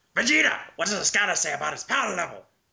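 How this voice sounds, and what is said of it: Nappa voice impression (Team Four Star). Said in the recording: “I'm kind of like practicing a Napa voice ... the Team 4-star Napa ... my impression ... you almost sound exactly”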